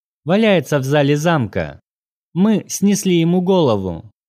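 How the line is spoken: Casual tone. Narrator (Russian): Полина небрежным тоном поведав

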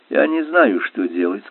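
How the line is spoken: Plain. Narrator (Russian): сказал он

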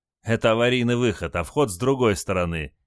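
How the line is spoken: Snide reply. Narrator (Russian): ехидно ответил моряк

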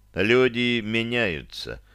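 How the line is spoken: Calm. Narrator (Russian): спокойно произнес я

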